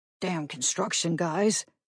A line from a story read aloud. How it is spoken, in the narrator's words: Nick Conte muttered